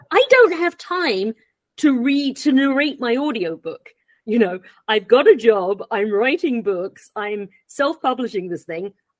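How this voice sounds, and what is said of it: English accent. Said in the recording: “you have this English accent”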